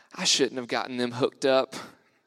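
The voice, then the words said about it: Deep southern accent. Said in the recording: “with this like deep southern accent”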